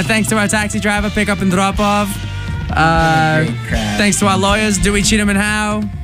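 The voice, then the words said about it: Mediocre put-on Boston accent. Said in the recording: “That's what it sounds like on Car Talk. That's my best Boston accent. It's really not that good.”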